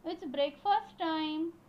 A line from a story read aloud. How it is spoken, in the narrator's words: Mummy called out